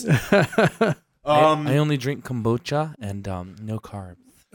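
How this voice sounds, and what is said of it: Imitates another person's voice. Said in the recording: “That was a great ... impression.”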